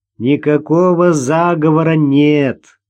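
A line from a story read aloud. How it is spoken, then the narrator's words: Laughing. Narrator (Russian): засмеялся Игорь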